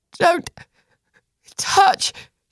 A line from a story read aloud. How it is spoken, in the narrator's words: she croaked